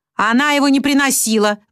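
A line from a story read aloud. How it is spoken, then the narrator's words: Roaring. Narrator (Russian): взревела акула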